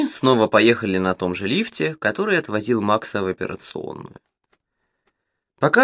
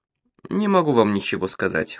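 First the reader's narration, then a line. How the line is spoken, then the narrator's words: Cold. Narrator (Russian): холодно ответил Бельяр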